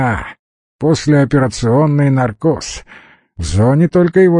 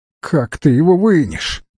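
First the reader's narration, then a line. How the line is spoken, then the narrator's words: Tearful voice. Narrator (Russian): плачущим голосом спросил Алекс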